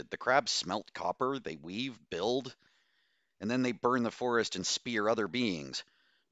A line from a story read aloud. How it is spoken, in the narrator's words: Bose exclaimed